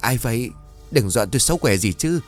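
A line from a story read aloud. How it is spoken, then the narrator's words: Terrified woman stammering. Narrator (Vietnamese): người đàn bà thất kinh miệng lắp bắp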